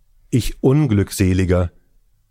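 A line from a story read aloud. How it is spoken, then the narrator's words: Old man's anguished cry. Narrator (German): rief der Greis bei dieser Entdeckung aus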